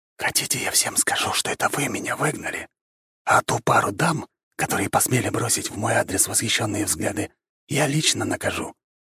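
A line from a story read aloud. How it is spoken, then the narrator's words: Whispered in ear. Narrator (Russian): прошептал я девушке на ухо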